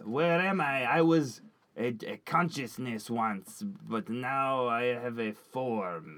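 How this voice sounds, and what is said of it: Funny put-on accent. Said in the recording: “Funny accent.”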